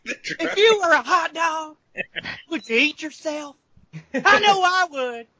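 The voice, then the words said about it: Will Ferrell's Harry Caray impression. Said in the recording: “Will Ferrell trying to do Harry Carey”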